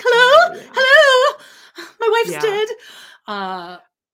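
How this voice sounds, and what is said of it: Frantic imitated voice. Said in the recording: “his voice is much... Frantic. His voice, he has a Cole DeBoer voice.”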